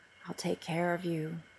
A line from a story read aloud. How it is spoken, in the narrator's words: he says softly